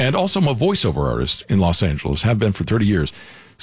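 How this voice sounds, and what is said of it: Usual voice. Nothing is said of it.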